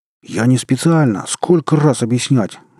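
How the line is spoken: Furious yell. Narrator (Russian): заорал в бешенстве Андрей

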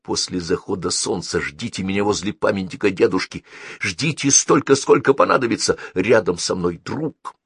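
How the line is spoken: Said quickly. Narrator (Russian): быстро сказал нагнувшемуся сенатору

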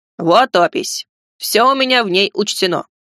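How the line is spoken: Deep bass voice. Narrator (Russian): пробасил рыжий

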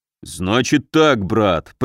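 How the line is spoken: Deep rumble. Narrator (Russian): прогудел Муром

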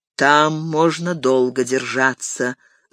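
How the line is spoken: Thoughtful, king. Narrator (Russian): задумчиво проговорил король

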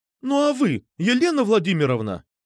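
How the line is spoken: Exclaiming. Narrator (Russian): воскликнула Медуза

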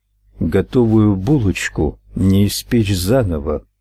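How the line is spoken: Hollow, muffled voice. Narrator (Russian): глухо произнес Ральф

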